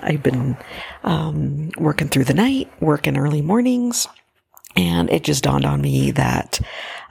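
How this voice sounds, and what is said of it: Raspy, tired voice. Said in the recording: “my voice is kind of raspy”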